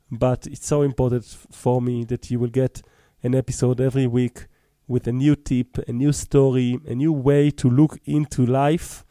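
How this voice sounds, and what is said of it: Choppy voice, recovering from cold. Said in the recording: “My voice is a little bit choppy today. I'm recovering from being a little bit cold”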